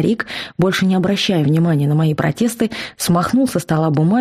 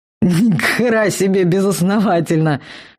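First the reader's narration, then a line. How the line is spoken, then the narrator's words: Barking shout. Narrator (Russian): рявкнул Вал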